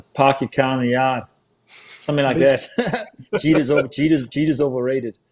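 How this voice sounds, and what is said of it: Weak attempt at Boston accent. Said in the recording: “Let's hear that Boston accent ... Tell you what, work on it a little bit.”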